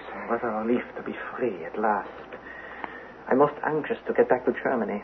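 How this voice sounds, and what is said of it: Put-on German accent. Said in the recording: “The German accent.”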